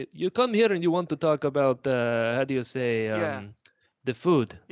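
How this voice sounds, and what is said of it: Put-on Russian accent. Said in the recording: “I could do a pretty good Russian accent ... That's not bad. That's good.”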